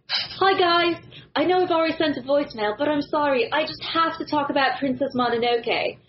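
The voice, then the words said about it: Put-on British accent, done well. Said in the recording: “You have to read it in a British accent... Wow, you're good.”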